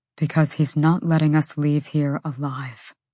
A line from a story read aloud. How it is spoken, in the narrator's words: Hunt breathed